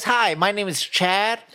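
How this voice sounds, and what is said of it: Put-on up talk character voice. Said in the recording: “I usually talk like this ... but man, right now I talk like this ... are you doing the up talk?”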